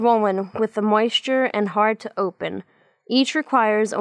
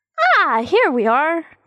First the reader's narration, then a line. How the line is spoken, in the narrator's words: chirps Monody